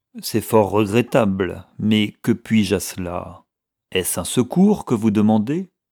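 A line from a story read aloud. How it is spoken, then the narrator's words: Cold, with deep antipathy. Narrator (French): Le Kaoudjer, à qui le requérant inspirait une profonde antipathie, répondit d'une voix froide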